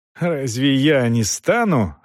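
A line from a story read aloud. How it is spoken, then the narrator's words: Contemptuous, through gritted teeth. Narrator (Russian): презрительно усмехнулся и процедил сквозь зубы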